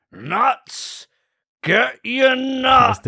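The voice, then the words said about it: Imitates a stadium snack vendor's call. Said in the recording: “your best impression of something you hear at a sporting event ... That's the guy who sells the freaking, at a baseball game, sells the snacks.”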